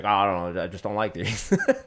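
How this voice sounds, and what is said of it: Imitates another person's voice. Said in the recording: “That's my Walt impression. ... That's a good impression.”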